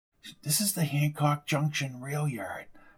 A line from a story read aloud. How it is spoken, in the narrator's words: she said in almost a whisper